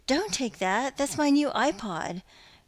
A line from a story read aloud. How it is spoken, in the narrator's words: wailed the young black man